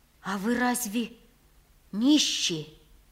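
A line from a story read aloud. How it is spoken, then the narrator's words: Dejected question. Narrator (Russian): спросил я упавшим голосом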